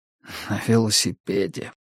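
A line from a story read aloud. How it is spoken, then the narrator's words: Whisper. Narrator (Russian): прошептал Пелфри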